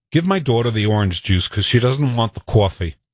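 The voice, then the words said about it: Put-on New York accent. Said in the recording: “Can you do a New York accent? Here is the quintessential New York sentence.”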